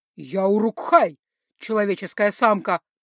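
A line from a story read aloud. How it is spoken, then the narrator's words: Growling, slightly broken speech. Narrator (Russian): прорычал в ответ он, немного коверкая слова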